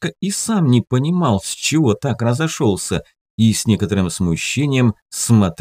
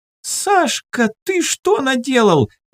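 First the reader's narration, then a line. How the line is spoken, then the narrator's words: Grandmother shouting. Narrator (Russian): закричала бабушка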